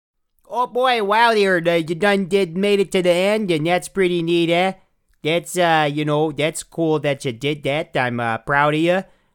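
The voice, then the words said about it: Put-on Canadian accent. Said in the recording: “this is the voice, this is the accent I've been working on since I've been up here in the Northwoods ... it's very Canadian”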